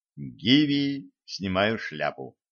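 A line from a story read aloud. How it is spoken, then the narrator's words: Admiring whisper. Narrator (Russian): прошептал восхищенный Петр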